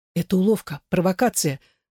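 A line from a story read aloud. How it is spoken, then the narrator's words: Stammering with agitation. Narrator (Russian): говорил Спинель, заикаясь от волнения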